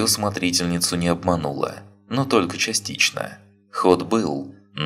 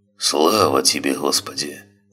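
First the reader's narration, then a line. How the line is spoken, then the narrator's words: Sigh. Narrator (Russian): вздохнул Матвей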